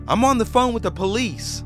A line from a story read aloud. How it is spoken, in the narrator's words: shouted